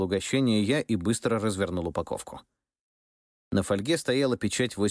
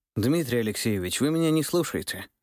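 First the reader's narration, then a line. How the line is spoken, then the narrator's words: Sighing. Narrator (Russian): вздохнул подполковник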